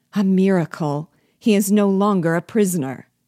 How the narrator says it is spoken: Negroes exclaimed in tones of surprise

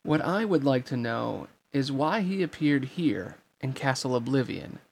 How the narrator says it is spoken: said Zexion

